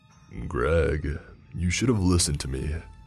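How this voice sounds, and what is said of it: Chilling deep voice. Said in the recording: “It was a chilling, deep voice.”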